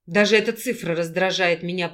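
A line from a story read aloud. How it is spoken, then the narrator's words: Grumbling through gritted teeth. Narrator (Russian): проворчал Дима, скрипя зубами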